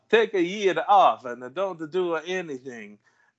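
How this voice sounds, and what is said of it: Exaggerated put-on Italian accent. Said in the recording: “I get to do my offensive Italian accent.”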